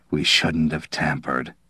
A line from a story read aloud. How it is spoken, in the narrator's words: Tozzo said in a hoarse voice